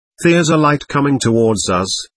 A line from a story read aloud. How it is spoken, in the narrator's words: Bill replied